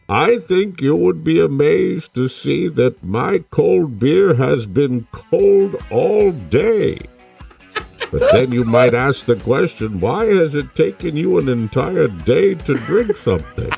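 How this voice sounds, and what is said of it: Bane impression. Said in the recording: “your Bane impression”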